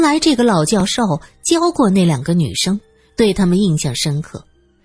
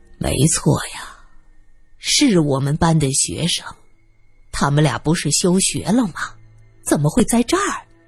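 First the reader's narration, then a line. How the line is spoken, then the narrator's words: Old man sighing. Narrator (Chinese): 老教授摇头叹息道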